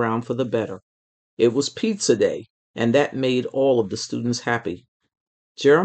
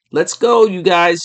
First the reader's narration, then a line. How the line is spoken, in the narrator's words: called out